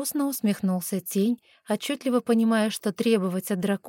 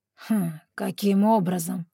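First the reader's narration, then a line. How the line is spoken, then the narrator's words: Skeptical grunt. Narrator (Russian): скептически хмыкнул дракон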